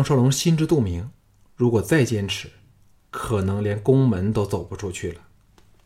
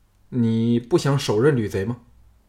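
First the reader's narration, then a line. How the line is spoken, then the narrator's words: Sighing. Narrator (Chinese): 又叹了一口气说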